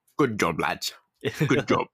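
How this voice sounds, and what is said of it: Convincing put-on accent. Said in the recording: “God, you do that accent so well.”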